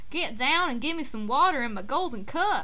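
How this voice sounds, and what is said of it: Put-on Southern US accent. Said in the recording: “change in dialect... is this from kingdom from the southern part of the United States that they're talking”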